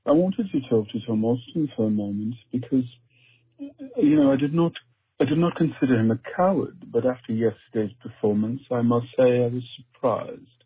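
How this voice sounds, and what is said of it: Put-on posh high-class accent. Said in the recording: “This is how you do a proper high-class accent. You can do it with a British annotation or American inflection.”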